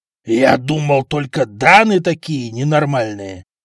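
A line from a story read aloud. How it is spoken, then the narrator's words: Disgusted groan. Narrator (Russian): простонал почтенный купец, с омерзением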